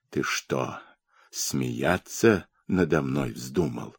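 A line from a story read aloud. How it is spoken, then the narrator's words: Hoarse voice. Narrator (Russian): хрипло заговорил Сафрон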